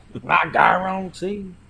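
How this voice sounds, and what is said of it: Weak attempt at Cajun accent. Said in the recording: “I cannot do a Cajun accent ... It's getting there ... That was not it either ... It's given angry Westerner”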